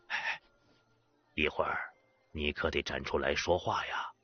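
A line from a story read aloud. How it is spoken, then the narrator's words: Soft, quiet. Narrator (Chinese): 廖掌柜 轻声说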